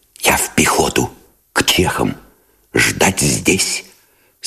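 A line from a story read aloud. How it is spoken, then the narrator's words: Whispered. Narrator (Russian): сказал он шепотом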